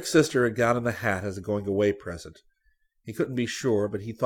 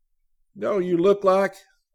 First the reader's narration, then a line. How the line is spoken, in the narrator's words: Scotty exclaimed suddenly